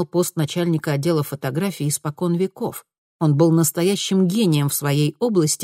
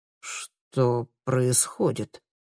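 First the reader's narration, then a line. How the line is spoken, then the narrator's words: Stunned, forced out. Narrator (Russian): выдавил из себя ошеломленный Теркель Хойер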